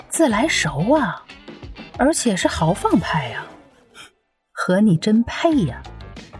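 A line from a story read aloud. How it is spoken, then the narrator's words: Low teasing whisper. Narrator (Chinese): 方晨 压低声音在他耳边揶揄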